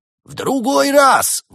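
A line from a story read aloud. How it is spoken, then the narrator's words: Shouted while running. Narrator (Russian): выкрикнул на бегу Проспер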